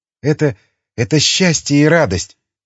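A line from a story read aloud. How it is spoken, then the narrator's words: Rasped. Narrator (Russian): Прохрипела Марина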